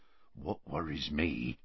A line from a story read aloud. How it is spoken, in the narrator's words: said Hagrid, lowering his voice